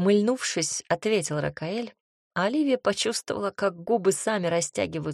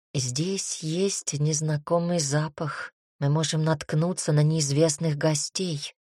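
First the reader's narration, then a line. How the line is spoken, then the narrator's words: Continued hissing. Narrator (Russian): продолжал шипеть он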